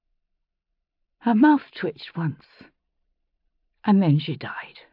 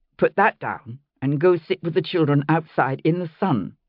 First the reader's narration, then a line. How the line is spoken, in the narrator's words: I said firmly